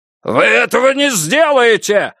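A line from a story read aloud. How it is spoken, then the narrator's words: Yelling. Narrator (Russian): завопил Систранг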